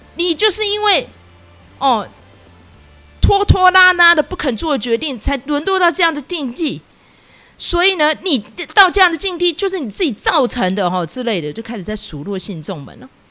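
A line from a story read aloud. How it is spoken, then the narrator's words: Shouting. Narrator (Chinese): 尊者也喊说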